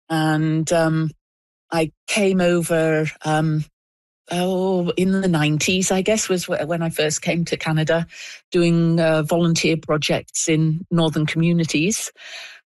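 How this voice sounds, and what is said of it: British accent. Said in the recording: “you can probably tell by my accent, I'm not originally from the Yukon. I'm originally from Britain.”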